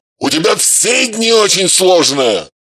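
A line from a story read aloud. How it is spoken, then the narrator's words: Barking. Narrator (Russian): Рявкнул Матвей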